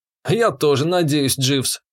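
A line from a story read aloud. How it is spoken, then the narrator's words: Wry snort. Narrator (Russian): хмыкнул я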